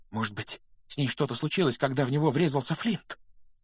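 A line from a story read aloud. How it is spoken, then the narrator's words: Whisper. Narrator (Russian): прошептал Симус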